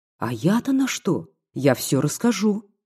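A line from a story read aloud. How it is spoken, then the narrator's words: Female exclaiming. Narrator (Russian): воскликнула она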